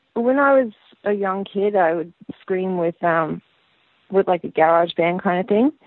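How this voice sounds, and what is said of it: Australian-influenced accent. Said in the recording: “happens to have spent a lot of time in Australia, hence her accent.”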